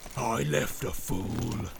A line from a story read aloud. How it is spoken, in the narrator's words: snarled Grishnak